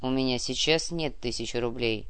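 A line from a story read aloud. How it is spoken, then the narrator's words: Calm. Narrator (Russian): спокойно произнес Зорич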